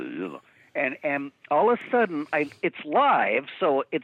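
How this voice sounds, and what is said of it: Usual voice. Nothing is said of it.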